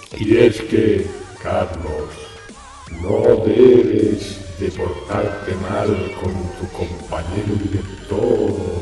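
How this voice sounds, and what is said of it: Put-on voice of God. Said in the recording (Spanish): “voy a poner la voz de Dios para que me oigas bien”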